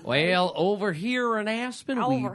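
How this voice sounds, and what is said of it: Exaggerated Southern American accent. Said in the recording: “the southernest accent”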